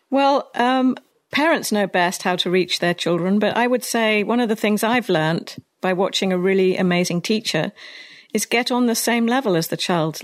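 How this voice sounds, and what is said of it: British accent. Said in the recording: “you have a British accent. So no matter what you say, it sounds better than my accent or any other American”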